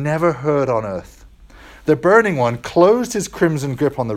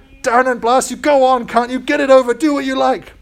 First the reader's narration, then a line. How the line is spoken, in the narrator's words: bellowed the ghost, but ended whimpering